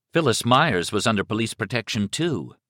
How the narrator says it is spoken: Liz said

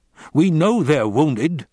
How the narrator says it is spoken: Howard snapped

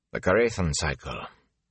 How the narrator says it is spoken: Tom said curtly

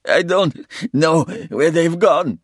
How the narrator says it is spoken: he sobbed

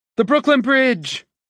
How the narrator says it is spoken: he shouted

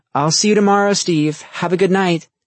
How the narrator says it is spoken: called out

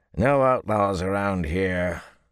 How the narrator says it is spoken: a grizzled guard said gruffly

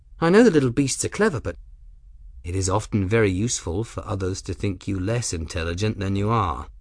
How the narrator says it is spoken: Benedict said, his tone amused

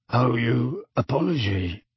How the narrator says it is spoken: grunted a voice

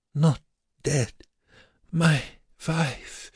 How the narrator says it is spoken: The Musselmann groaned, and whispered

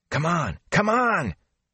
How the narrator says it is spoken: Matt panted the words

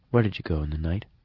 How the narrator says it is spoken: said softly

